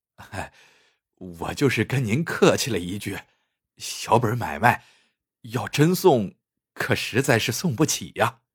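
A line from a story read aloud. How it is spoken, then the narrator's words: Anxious, ingratiating explanation. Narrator (Chinese): 张好嘴着急了，陪着笑脸解释说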